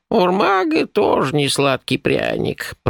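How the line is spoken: Old woman grumbling. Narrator (Russian): проворчала старуха

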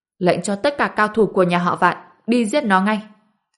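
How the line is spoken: Murderous man's roar. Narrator (Vietnamese): Một người đàn ông gầm lên rồi nổi sát ý nói

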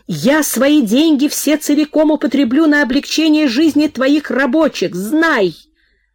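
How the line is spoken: Uncontrolled shout. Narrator (Russian): Не в силах удержать себя, она крикнула

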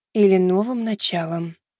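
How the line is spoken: Quiet speech. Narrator (Russian): негромко произнесла

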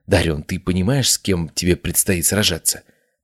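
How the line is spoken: Whispered. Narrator (Russian): прошептал он

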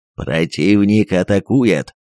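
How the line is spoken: Ominous announcement. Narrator (Russian): Зловещим голосом объявил старший артиллерист

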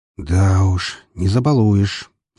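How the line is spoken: Sighing. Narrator (Russian): вздохнул Эмилио

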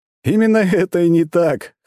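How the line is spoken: Short laugh. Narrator (Russian): хохотнул Макс

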